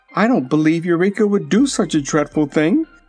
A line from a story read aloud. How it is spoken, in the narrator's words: cried Dorothy, much distressed